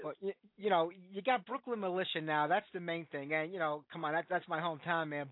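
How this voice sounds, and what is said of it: Brooklyn accent. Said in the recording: “Born and bred in Brooklyn. Can't get rid of the accent.”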